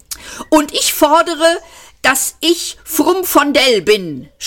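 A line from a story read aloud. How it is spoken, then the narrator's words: Shouted, younger speaker. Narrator (German): schrie der Jüngere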